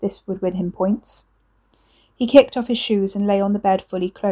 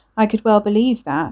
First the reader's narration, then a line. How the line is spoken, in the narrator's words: she said